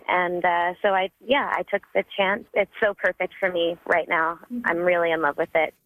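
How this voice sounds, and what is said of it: Excited speaking voice. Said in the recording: “I can hear the excitement in my voice”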